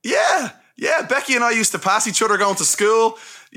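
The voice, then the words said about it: Dublin accent, struggles with TH sounds. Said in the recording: “Those THs for us dubs, I mean, it screws us completely ... He has your accent.”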